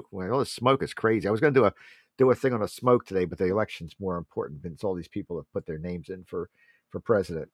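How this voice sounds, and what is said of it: Hoarse, strained voice. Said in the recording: “I'm losing my voice. It's all that smoke.”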